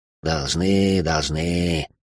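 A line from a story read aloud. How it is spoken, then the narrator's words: Grumbling captain. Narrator (Russian): пробурчал капитан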